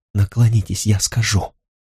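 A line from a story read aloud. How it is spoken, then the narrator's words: Quiet, plaintive, breathless plea. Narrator (Russian): Она перевела дыхание, попросила тихо и жалобно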